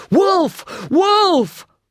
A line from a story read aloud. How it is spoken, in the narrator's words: cries